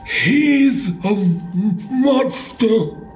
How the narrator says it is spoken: he choked through ragged breath

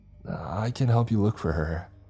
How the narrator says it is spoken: I stammered

